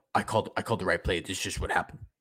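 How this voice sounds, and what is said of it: Snarky imitation of another person's voice. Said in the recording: “something super snarky like... that's my Kyle impression.”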